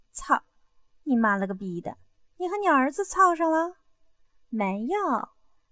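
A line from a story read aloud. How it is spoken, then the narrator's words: Laughing curse. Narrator (Chinese): 刘丽笑骂道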